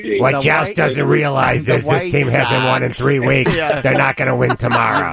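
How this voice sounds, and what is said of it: Imitates a sportswriter's voice. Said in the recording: “Do you do an impersonation of Gleason? Because everyone used to.”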